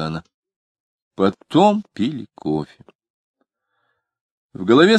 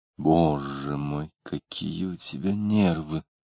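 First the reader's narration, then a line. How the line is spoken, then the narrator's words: Quiet. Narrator (Russian): тихо сказала Варвара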